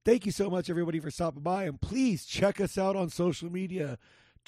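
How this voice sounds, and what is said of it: Hoarse, fading voice. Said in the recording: “my voice is going out a little”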